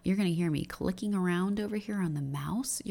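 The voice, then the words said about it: Very low morning voice. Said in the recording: “my voice is crazy low because it's morning time”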